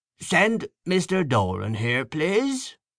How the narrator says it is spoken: Leonard calling out in his rasping voice

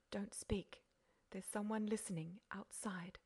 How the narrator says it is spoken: Beautrelet whispered

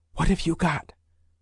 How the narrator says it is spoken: whispered Ikonin

